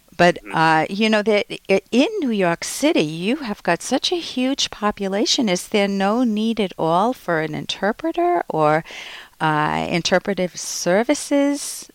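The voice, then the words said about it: Rhode Island accent, dropped R's. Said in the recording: “I'd have the same accent as the New Yorkers, a little bit of the Brooklyn. We cut off our R's and put them where they don't belong”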